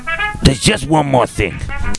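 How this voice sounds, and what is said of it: Columbo detective character impression. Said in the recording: “your Columbo impression”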